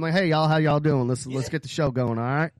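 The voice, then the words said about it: Put-on Southern cowboy accent. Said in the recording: “you're pretending to have this accent”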